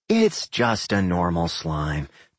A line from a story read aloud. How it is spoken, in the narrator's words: Doc sighed